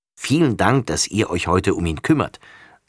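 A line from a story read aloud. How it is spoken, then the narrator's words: Plain. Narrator (German): sagt Frau Krause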